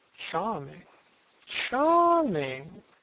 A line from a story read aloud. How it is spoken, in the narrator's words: Lord Henry murmuring